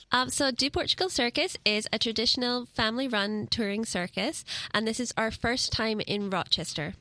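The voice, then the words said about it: Scottish accent. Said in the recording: “I detect an accent. ... I'm from Scotland.”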